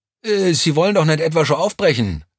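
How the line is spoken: Excited call. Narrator (German): rief Vierlinger aufgeregt

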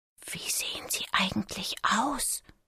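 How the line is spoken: Whispering. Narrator (German): flüsterte

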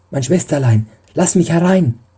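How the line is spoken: Calling out. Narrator (German): rief

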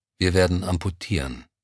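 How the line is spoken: Composed young doctor. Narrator (German): Der junge Arzt räusperte sich leise, und man merkte seiner Stimme die innere Zerrissenheit nicht an, als er sagte

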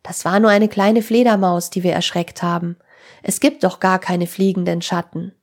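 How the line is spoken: Relieved call. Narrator (German): rief Tim erleichtert

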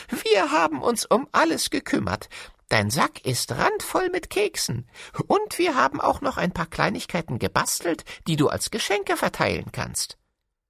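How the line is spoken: Dwarves laughing. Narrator (German): lachten die Zwerge

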